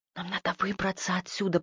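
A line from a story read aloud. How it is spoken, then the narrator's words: Whispered. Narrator (Russian): прошептала Магдалена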